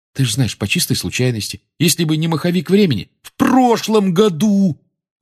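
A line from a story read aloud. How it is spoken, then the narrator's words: Almost shouting. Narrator (Russian): Рон почти кричал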